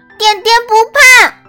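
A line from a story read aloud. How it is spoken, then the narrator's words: Loud shout. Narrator (Chinese): 他大叫一声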